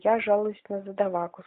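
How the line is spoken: Quick speech. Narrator (Russian): сказал он быстро

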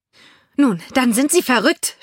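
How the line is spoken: Shouted. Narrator (German): schrie Olivia

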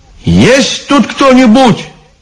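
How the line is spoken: Shouted. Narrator (Russian): крикнул Иван

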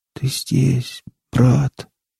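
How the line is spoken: Barely audible whisper. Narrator (Russian): едва слышно прошептал кипяток

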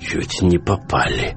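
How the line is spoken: Hoarse voice. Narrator (Russian): хриплым голосом зачем-то поведал ему Сток

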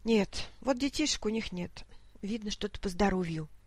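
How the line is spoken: Quiet old woman. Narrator (Russian): тихо произнесла старушка

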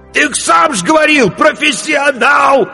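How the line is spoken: Desperate shout, innkeeper. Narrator (Russian): отчаянно выкрикнул корчмарь

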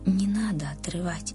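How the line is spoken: Whispered in the ear. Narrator (Russian): словно шепнул кто-то Риме на ухо

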